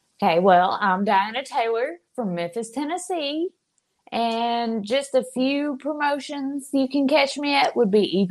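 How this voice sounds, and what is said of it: Southern US accent. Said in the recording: “Love that southern accent. Love it. ... It's very pretty.”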